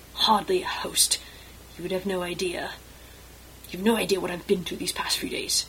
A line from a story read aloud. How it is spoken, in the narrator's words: Sebastian mutters